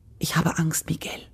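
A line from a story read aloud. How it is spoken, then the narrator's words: Young woman's whisper. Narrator (German): flüsterte die Jungfrau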